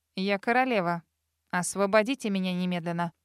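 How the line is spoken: Commanding order. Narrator (Russian): Повелительным тоном приказала она

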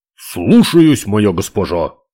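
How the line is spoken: Barked. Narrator (Russian): гаркнул он

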